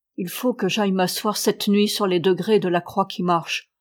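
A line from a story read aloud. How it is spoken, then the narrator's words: Plain. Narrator (French): dit-il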